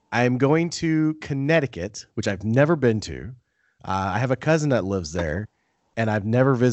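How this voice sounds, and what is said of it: Usual voice. Nothing is said of it.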